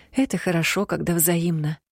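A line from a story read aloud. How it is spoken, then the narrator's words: Sighing. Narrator (Russian): вздохнула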